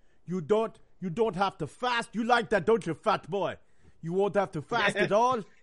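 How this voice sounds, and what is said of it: Put-on Caribbean accent drifting Austrian. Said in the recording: “You almost crossed over from... from like some kind of Caribbean accent to Austrian.”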